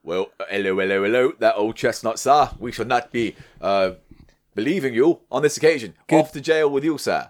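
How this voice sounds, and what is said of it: Impression of a policeman. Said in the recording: “Good impression of a policeman.”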